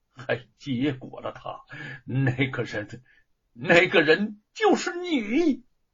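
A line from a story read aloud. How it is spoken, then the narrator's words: Halting, exasperated. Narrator (Chinese): 神情好似哭笑不得，半晌方说出话来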